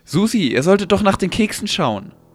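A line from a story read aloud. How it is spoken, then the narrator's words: Upset shout. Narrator (German): rief Nina aufgebracht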